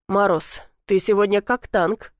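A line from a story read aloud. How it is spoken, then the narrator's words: Snort. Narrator (Russian): хмыкнул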